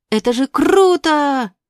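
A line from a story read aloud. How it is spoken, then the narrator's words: Yelling. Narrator (Russian): орал Болтун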